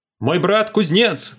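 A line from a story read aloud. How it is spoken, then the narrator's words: Shouted into a pit. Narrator (Russian): крикнул в одну из ям турист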